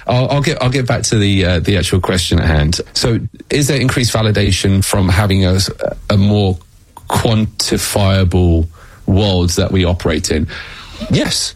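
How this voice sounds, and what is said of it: British accent. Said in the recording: “it's my British accent that makes me, sound more ... when our guest has a British accent”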